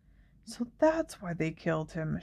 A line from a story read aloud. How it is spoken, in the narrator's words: she said quietly